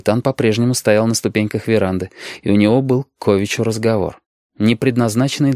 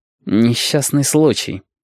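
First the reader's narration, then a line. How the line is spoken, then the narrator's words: Through clenched teeth. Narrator (Russian): сказал Рамон сквозь зубы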